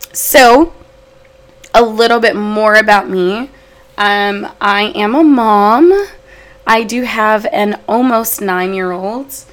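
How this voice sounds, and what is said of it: Voice sounds slightly off, sick. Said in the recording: “I sound a little weird ... I think I'm coming down with a cold”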